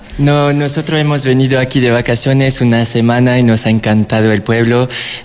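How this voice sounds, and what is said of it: French accent speaking Spanish. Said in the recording (Spanish): “es de Francia... lo vamos a saber y un poco por su acento”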